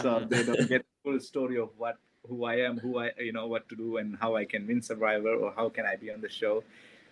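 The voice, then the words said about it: Speaks with a noticeable accent. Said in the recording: “with my accent”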